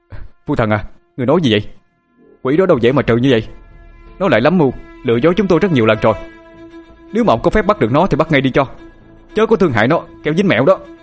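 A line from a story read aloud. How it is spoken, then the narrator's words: Panicked scream. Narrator (Vietnamese): Hạ hoảng sợ mà hét lên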